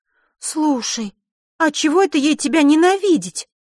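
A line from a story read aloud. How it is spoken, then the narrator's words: Emotional exclamation. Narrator (Russian): Не сдержав эмоций, воскликнула Захара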